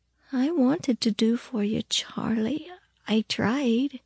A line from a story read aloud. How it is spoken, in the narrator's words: she only said softly